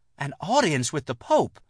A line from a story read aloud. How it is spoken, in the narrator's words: Lucy exclaimed breathlessly